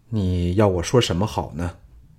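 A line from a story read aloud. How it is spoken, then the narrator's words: Sighing. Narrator (Chinese): 项少龙叹道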